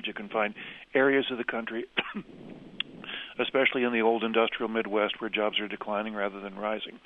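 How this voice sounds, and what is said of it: Hoarse, throaty voice. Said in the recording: “I have a frog in my throat.”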